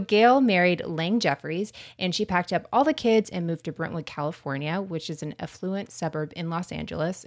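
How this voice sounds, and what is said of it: American Florida accent. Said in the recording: “my American accent is coming out and Florida accent”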